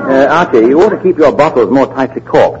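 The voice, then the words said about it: English accent. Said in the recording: “The dialect. He's from England.”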